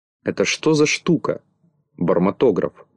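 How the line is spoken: Plain. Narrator (Russian): спросил Винтик

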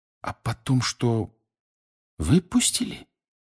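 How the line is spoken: Slow. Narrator (Russian): Медленно проговорил Гарри

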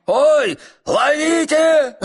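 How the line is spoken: Shouted. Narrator (Russian): закричал Бада

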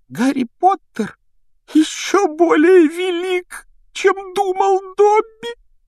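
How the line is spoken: Sobbing exclamation. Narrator (Russian): воскликнул он с рыданием

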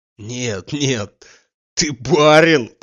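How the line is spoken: Laughing loudly. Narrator (Russian): продолжал с хохотом Штольц

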